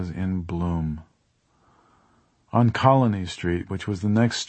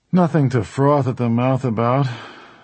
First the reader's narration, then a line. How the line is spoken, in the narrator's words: Ted said dryly